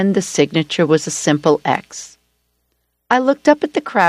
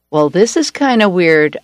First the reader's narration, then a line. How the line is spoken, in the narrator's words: chuckled